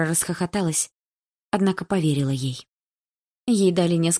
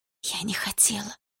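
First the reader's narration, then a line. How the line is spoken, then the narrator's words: Whispered. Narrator (Russian): прошептала Дилара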